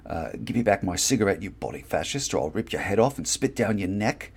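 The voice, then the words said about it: Put-on British accent. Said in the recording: “Pretend that I'm actually using a decent British accent.”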